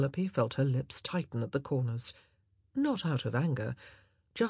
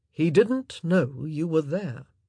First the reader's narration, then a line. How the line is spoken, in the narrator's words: Anthony said in a strangely respectful voice